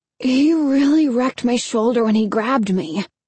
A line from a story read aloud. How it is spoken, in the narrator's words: he said, groaning